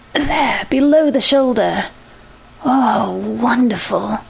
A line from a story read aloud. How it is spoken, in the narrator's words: She sighed as if with immense relief